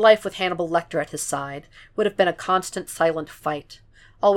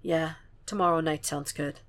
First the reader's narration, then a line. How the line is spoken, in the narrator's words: sighs